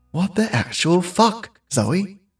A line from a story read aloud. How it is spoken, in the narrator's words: said to herself quietly